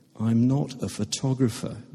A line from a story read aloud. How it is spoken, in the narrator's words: Ben says, a little wearily